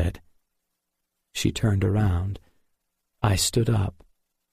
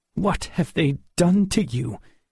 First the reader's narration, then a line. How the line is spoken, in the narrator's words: asked angrily